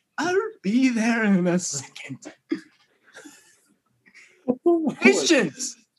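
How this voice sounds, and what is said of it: Old wise turtle character voice. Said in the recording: “what's the turtle's name? The one that's like old. ... Oogway. ... That actually wasn't a terrible impression”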